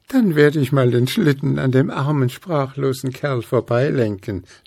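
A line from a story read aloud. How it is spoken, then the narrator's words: Laughing. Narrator (German): lachte Luzi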